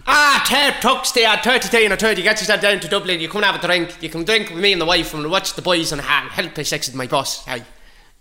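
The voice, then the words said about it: Put-on Irish Dublin accent. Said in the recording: “I'll do an accent for each one ... Dublin”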